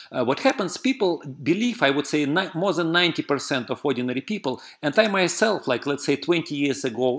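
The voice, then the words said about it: Russian accent. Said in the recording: “I have like a Russian accent. Many people recognize that you speak like a little differently.”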